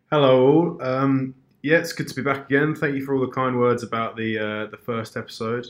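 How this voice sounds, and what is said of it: Weak, unwell-sounding voice. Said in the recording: “my voice is a little weak this week ... Not fighting fit ... running on about 60”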